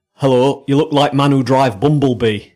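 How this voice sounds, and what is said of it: Deliberately bad Chinese accent, sounding northern. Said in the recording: “try your Chinese accent ... Sorry, that's a northern accent ... that's the worst Chinese accent ... Deliberately bad”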